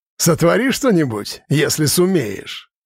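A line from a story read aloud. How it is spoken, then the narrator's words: Scoffing, theatrical. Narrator (Russian): хмыкнул, играя свою уже несколько раз отрепетированную роль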